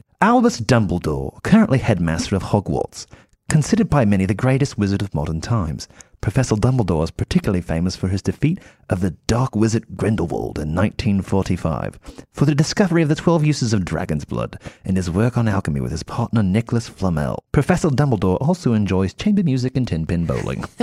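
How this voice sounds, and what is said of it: Put-on British accent. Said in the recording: “I want to do this in a British accent”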